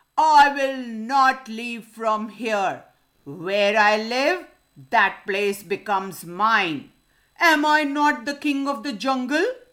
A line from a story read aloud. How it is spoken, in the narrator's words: the lion roared